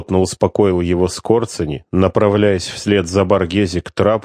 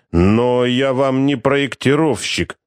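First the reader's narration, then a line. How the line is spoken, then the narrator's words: Grumbling captain. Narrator (Russian): проворчал капитан судна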